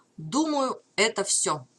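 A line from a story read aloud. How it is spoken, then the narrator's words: Plain. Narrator (Russian): сказал Гордон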